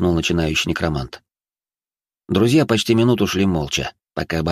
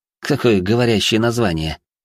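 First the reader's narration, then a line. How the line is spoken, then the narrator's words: Snorting. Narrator (Russian): хмыкнул Гарри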